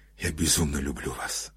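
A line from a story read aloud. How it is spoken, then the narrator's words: Close breathy whisper. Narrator (Russian): шептал он, дыша ей на щеку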